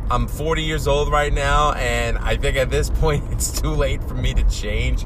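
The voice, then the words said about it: Queens New York accent. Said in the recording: “holy fuck, do I have a Queens accent ... I can't shake the fucking Queens accent”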